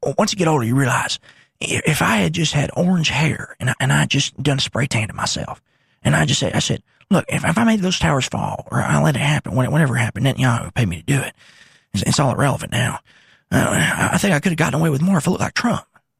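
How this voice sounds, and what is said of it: Imitates another person's voice. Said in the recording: “That's my George Bush impression. I'll workshop that more”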